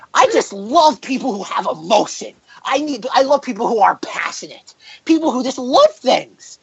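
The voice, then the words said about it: Imitates another person's voice. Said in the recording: “my Rob impersonation ... Okay, I wasn't good”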